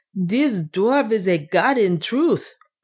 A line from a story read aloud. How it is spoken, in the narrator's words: cried one of the captains